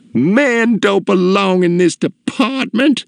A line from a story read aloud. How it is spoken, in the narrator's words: cried